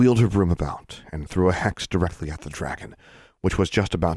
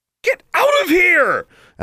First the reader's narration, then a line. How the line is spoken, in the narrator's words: Alexandra screamed to the spectators